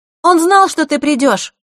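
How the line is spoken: Loud over the rain. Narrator (Russian): Громко, чтобы перекрыть шум дождя, произнесла Захара

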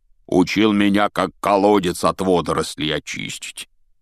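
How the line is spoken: Grumbling. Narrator (Russian): проворчал Хагрид

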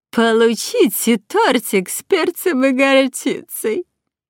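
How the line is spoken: Nasty giggling. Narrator (Russian): Противно хихикала Магда

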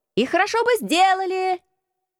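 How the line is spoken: Shouted. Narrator (Russian): крикнул кто-то

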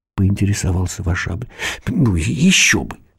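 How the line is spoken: Exclaiming. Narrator (Russian): воскликнула кукушка

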